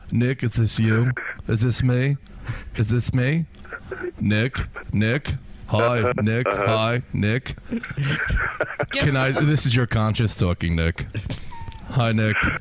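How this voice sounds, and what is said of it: Imitates another person's voice. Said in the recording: “impersonator extraordinaire, doing Nick Ring”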